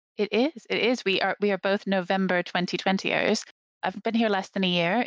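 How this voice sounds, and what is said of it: American accent from Atlanta area. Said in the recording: “that is not a British accent that I'm hearing... if you asked an American, they'd probably think it sounded a bit British, but it absolutely isn't. I grew up in the suburbs of Atlanta in the southeast of the US.”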